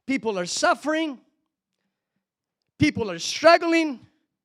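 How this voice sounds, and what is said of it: Rising, louder preacher-style voice. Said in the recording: “my voice is coming up. I feel like Pentecostal again.”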